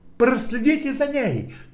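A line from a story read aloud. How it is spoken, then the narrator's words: Shout. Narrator (Russian): крикнул я Коули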